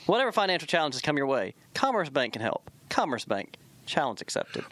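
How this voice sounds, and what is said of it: Slight Southern twang. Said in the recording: “A little twang to it.”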